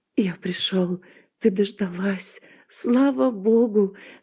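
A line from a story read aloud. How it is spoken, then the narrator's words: Whispering. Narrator (Russian): шептал он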